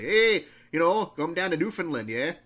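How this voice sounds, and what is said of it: Put-on Canadian accent. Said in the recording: “I want to start this review doing a Canadian accent ... Well, that's more Dakota, I think.”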